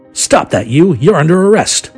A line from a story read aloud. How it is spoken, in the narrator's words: Feraldo yelled